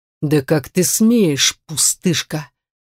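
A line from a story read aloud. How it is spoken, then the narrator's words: Hiss. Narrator (Russian): прошипел этот монстр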